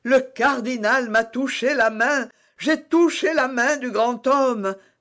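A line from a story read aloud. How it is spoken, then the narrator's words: Exclaiming. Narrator (French): s'écria Bonacieux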